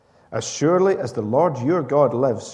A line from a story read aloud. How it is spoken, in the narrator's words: replied